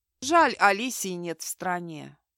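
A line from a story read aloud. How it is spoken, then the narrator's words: Heavy sigh. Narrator (Russian): тяжело вздохнула Тори Айзекс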